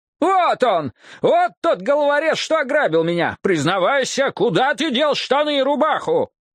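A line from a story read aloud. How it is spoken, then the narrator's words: Accusing yell. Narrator (Russian): Приняв позу обличителя, человек на муле завопил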